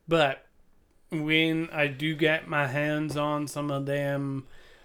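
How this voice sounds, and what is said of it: Put-on Southern US accent. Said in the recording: “I don't know why I went to the southern accent”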